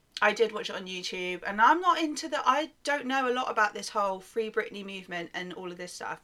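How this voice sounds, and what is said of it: British accent. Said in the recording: “Is it just my British accent?”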